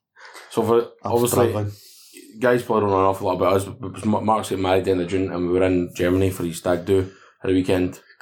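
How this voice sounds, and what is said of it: Croaky, raspy voice. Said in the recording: “You can even hear it in my voice. I'm a bit croaky. ... A bit raspy”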